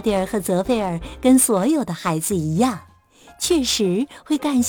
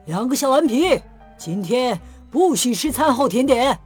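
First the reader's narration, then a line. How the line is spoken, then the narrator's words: Scolding shout. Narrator (Chinese): 巴巴瞧见了，他对他俩喊道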